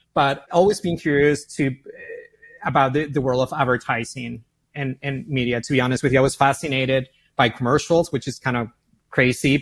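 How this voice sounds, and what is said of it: Argentine Spanish accent. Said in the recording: “as you can hear my accent, I'm from Argentina, from Buenos Aires, born and raised.”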